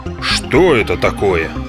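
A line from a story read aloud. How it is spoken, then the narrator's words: Grumbling. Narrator (Russian): проворчал регулировщик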